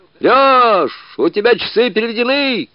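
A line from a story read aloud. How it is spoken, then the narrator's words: Shouting. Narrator (Russian): кричал Затыкин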